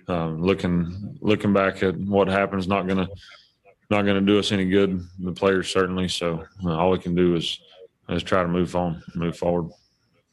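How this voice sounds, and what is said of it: Rural small-town American accent. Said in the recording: “I love that accent so much because, you know, I grew up in a small town in Kansas... dadgum. Like I heard people talk like that.”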